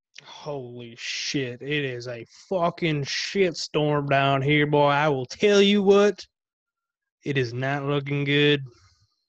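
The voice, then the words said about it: Weak put-on Southern accent. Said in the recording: “you still can't even put together half a good fucking Southern accent”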